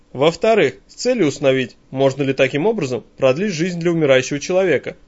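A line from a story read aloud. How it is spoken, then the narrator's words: Cheerful. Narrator (Russian): также бодро добавляет братец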